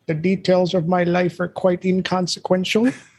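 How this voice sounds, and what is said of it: Deliberately bad movie-villain impression. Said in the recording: “my terrible Dr. Evil impression ... I told you it's a terrible impression”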